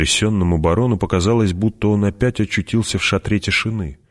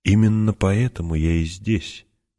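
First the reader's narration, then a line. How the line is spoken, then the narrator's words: Quiet. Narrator (Russian): тихо продолжал граф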